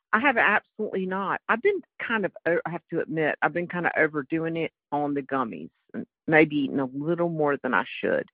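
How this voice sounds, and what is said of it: North Carolina Southern accent. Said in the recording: “it's ... from North Carolina, but I gather you could have known that from my accent anyway”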